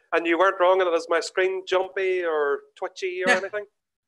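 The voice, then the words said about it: Irish accent. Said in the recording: “a good Irish accent here and you're delivering”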